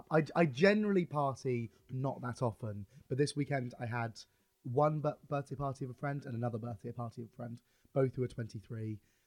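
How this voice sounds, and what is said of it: Hoarse, fading voice. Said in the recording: “I'm starting to lose my voice... I've just not got a voice.”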